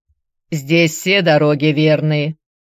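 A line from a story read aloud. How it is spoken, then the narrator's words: Gruff mutter. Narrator (Russian): буркнул тот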